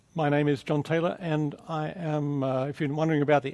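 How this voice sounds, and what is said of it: Mixed Australian, English, American accent. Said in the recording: “accent, it's kind of a mixed bag of accents. ... I'm from Australia. I spent many years in England ... lived for many years also in America”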